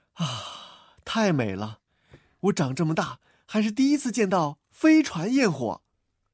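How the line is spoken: Admiring exclamation. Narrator (Chinese): 喵卷卷 感叹道

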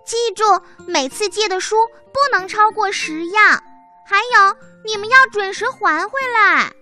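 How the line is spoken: Little mouse calling out. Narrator (Chinese): 小老鼠叫道

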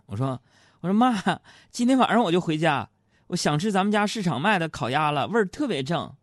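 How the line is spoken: Cheerful, laughing. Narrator (Chinese): 然后我就笑着说

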